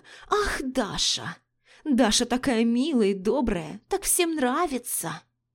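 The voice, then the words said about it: Mocking mimicry of others' praise. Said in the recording (Russian): “Передразнила Лика, гримасничая”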